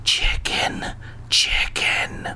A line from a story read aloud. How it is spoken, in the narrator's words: he rasped